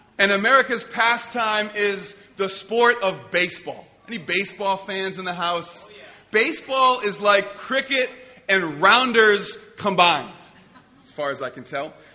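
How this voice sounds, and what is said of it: American accent. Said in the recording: “I'm an American, if you couldn't tell by my ludicrous accent.”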